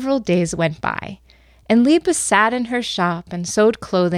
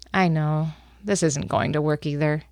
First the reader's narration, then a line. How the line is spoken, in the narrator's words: looked sadly, said